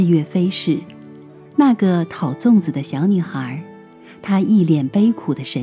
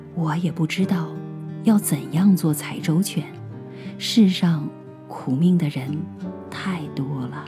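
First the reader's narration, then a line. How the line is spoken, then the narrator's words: Sighing. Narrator (Chinese): 母亲 叹口气说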